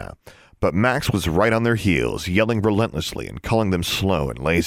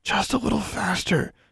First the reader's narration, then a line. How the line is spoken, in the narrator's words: Alexandra gritted her teeth and whispered